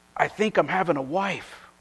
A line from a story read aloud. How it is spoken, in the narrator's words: With eyes wide open, he whispered